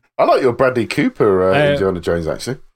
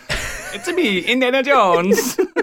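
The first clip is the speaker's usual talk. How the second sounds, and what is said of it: Put-on Italian accent. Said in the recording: “good at an Italian accent”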